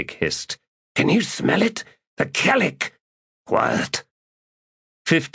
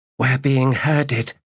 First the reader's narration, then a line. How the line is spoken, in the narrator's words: said Kedavis, her voice tight